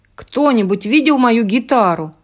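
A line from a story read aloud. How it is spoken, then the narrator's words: Shouting. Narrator (Russian): прокричал кто-то третий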